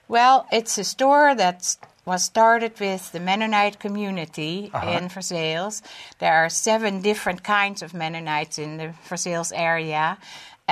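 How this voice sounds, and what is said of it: European accent. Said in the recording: “she came all the way from Europe ... I love your accent.”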